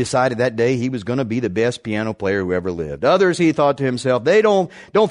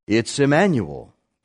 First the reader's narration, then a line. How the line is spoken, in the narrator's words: the teacher said